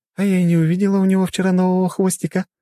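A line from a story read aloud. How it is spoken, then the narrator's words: Joyful. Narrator (Russian): радостно сообщила она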